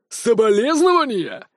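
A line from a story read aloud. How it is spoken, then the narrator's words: Furious, extremely loud yell. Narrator (Russian): заорал граф Уткин так, что показалось, будто мобилет сейчас взорвется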